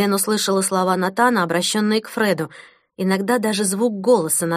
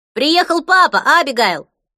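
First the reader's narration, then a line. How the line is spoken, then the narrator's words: Distant yell outdoors. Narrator (Russian): завопил Фред с лужайки перед домом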